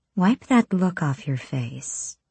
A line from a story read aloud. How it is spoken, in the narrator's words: Irene purred